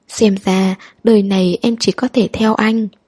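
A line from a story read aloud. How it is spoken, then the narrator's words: Slow sighing, smiling. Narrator (Vietnamese): Người nọ thở dài, chậm rãi cười nói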